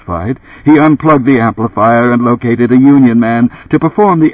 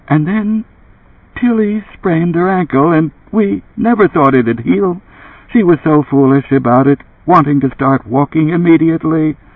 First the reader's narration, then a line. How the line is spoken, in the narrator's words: Faintly from the speaker, a voice said